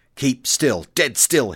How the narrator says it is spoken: hissed Hicks

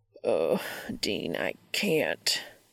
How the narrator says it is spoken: he growls

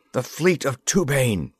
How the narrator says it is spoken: he cried

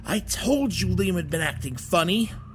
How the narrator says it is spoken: the more familiar sounding voice spoke, now that the wheezing had calmed down

